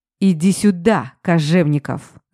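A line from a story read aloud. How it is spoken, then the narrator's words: Growled. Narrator (Russian): зарычал Алмазов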